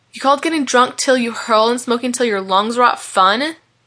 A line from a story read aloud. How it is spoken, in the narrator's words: snapped Malachi